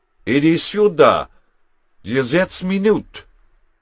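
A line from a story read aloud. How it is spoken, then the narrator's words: Bellowed. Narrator (German): brüllte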